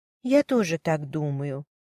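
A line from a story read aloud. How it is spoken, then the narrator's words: Quiet confirmation. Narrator (Russian): негромко подтвердила мисс Смит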